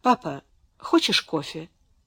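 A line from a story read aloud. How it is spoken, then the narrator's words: Timid question. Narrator (Russian): спросила Беатрис тем же робким тоном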